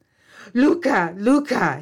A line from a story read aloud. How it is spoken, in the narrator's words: cried